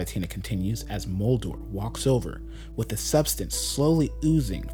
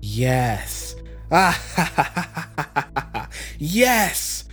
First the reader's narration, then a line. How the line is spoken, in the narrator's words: Cavatina laughs